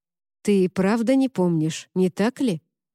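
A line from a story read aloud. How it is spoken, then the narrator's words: Plain. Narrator (Russian): спросил он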